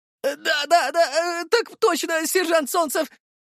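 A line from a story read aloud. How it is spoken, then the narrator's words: Squeaky young voice. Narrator (Russian): пропищал паренек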